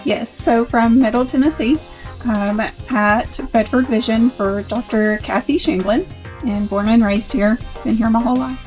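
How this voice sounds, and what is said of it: Southern US accent. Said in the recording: “based upon your accent, you sound like you're from down south”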